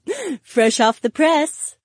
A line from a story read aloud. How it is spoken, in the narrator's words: she giggled